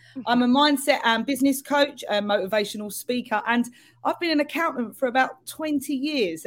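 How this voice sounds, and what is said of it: London accent. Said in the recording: “my very London accent.”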